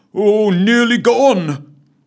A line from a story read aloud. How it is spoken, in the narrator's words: bellowed Cuthbert in frustration